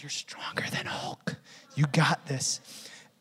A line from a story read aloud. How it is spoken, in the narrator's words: I just whispered